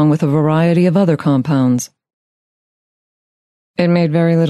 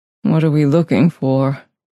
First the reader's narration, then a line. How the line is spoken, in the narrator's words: He asked in a weak voice